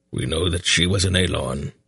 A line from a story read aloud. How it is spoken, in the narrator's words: Brand replied in his rumbling voice